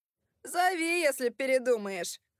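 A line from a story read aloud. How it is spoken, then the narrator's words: Shouting while giggling. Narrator (Russian): крикнул Фрэнки, вслед хихикая, как идиот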